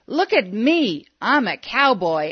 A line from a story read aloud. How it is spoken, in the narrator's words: He hollered